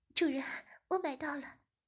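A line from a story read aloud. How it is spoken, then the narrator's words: Breathless, embarrassed. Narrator (Chinese): 大乔便红着脸喘息着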